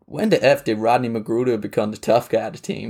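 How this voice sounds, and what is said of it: Imitates another person's voice. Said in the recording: “my accent is on point, to be honest ... That's not bad.”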